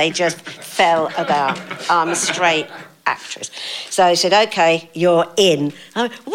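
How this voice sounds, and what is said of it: Usual voice. Nothing is said of it.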